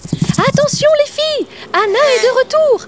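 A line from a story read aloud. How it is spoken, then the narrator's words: Insects shouting together. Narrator (French): criaient les autres insectes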